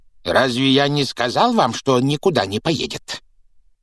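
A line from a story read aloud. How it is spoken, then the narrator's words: Hissing. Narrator (Russian): прошипел дядя Вернон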